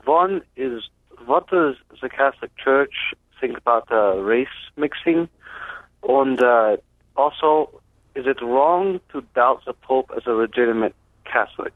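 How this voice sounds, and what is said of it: German accent. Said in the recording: “my accent makes it hard to understand ... with a German accent”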